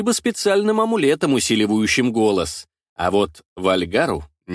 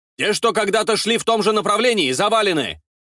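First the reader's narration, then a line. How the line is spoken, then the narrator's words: Clear loud report amid battle. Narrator (Russian): Несмотря на непрекращающийся бой со все набегающими и набегающими со всех сторон скружами, доклады слышатся довольно четко и громко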